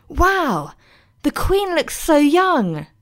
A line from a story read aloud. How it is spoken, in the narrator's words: he exclaimed, mesmerised by the twinkling china